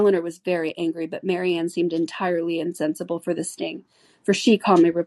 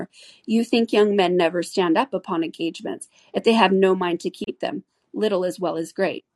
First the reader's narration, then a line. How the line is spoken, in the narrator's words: cried Lucy, eager to take some revenge on her